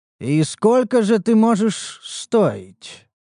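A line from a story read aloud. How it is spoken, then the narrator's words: Thoughtful drawl. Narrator (Russian): протянул я задумчиво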